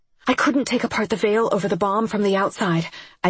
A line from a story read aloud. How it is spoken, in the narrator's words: I panted